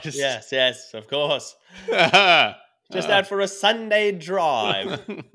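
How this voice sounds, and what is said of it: Put-on proper British accent. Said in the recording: “I'll develop a British accent while I'm driving to sound more proper”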